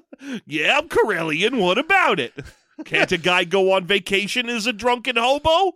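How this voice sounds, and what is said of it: Put-on New York accent. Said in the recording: “Corellia, space New York.”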